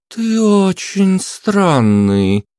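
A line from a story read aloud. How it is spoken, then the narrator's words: Drawled. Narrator (Russian): протянула Елен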